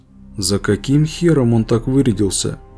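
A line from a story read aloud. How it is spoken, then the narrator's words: Quiet. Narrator (Russian): Реджи негромко произнес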